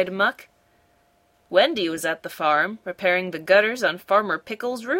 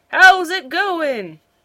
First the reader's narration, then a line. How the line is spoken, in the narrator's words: Farmer Pickle shouted up to her